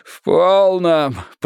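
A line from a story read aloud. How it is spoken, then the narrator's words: Groaning. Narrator (Russian): простонал Симон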